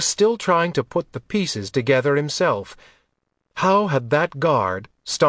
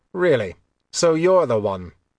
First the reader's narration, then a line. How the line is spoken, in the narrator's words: His voice was more cutting than he intended